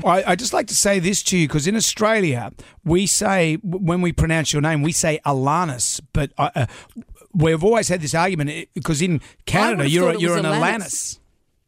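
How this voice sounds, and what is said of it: Striking accent. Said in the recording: “your accent is breathtaking”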